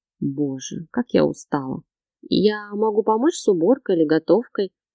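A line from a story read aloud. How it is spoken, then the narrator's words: Timid hint. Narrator (Russian): Робко намекнула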